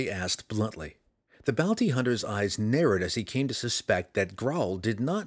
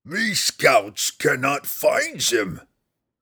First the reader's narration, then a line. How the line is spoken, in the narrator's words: Grawl roared